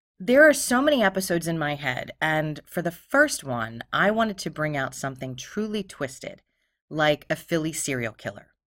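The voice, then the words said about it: Philadelphia accent, pitchy voice. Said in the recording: “my voice is pitchy ... I really do have a Philadelphia accent”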